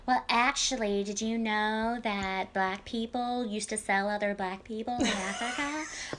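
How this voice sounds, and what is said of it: Imitates another person's voice. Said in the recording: “how you impersonated that really well”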